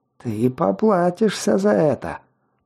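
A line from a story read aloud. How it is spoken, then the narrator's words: Angry slurred hiss. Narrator (Russian): зло прошипел он заплетающимся языком, сплевывая кровавую слюну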